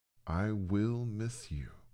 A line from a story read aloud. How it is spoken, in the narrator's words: she said